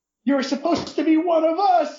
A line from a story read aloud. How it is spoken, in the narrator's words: a furry screamed